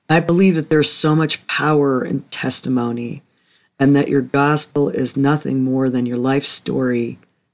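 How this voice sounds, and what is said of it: Unwell, not fully recovered voice. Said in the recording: “I think you can tell by my voice that I'm still not quite up to 100%”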